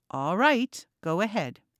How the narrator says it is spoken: he said

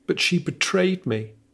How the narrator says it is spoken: came the persistent yell within him

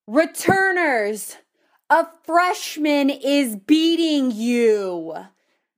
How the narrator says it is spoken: she yelled pretty much directly into my ear

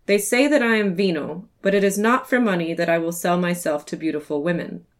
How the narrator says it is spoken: he laughingly responds

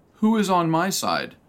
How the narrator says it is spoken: Jehu shouted

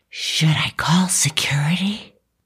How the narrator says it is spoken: She whispered that last part

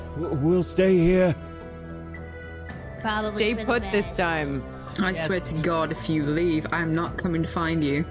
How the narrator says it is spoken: Garrett do sort of yells up

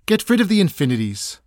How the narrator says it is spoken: said Hiriwa

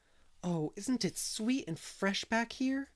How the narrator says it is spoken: breathed Anne

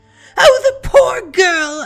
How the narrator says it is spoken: Elsa wailed

